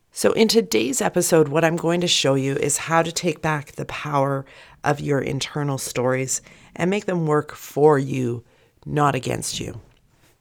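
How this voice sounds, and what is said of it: Gravelly, husky voice from a cold. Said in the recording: “I have to apologize for my voice this week. I'm just getting a cold ... my voice has that gravelly, husky tone”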